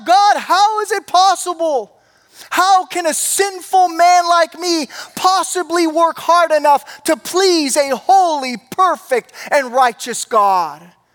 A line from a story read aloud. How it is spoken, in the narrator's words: he cried out